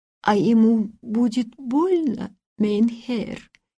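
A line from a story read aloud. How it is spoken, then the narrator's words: Trembling question. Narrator (Russian): спросила она дрожащим голосом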